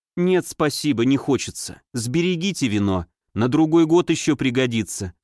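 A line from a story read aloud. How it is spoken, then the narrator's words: Plain. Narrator (Russian): сказала Айгу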